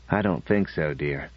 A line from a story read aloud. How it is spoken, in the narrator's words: Norman smiled gently and said